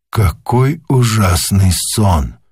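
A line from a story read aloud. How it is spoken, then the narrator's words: Whisper. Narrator (Russian): прошептал он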